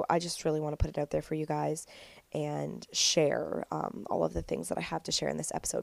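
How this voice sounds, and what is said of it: Sick-sounding voice. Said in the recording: “this whole being sick thing ... I'm sorry about the way that my voice sounds ... I'm really going to try and sound as normal as possible”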